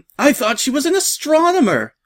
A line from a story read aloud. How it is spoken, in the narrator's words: one of the starboard gunners despondently wailed